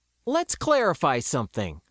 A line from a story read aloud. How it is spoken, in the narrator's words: I stated evenly